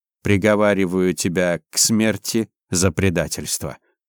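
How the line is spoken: Dry, curt. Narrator (Russian): сухо произнес Кабаяши

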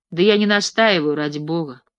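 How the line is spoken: Loud. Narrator (Russian): сказала Катя уже громко

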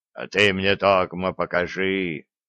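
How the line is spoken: Deep bass. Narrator (Russian): низко пробасил Радул

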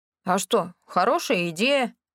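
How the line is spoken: Amused snort. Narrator (Russian): хмыкнул Рэнди

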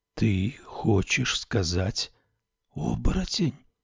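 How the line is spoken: Whispered. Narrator (Russian): прошептал Мишле

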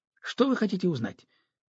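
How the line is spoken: Angry question. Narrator (Russian): сердито спросил он

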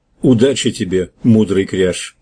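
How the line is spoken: Plain. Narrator (Russian): сказал Харгон

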